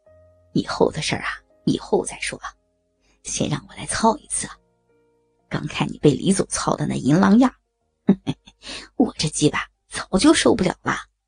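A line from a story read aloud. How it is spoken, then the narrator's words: Quiet speech. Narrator (Chinese): 刘梦洁 小声说道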